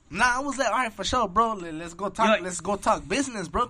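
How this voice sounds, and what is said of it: Chicano accent. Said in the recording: “he has that Chicano accent.”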